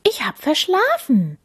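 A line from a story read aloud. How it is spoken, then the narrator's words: Called out. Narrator (German): ruft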